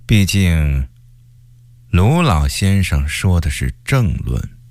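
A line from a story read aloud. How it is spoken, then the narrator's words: Flat, disgruntled remark. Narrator (Chinese): 曹化淳，因为不满高启前近2-3年爬得太快 淡淡地说了句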